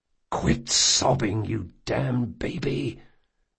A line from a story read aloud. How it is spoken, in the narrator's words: Jean hissed